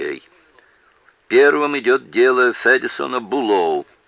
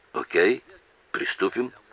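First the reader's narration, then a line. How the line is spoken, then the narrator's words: Stammering mumble. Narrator (Russian): пробормотал, заикаясь, Нолан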